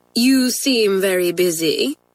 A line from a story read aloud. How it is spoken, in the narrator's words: said dryly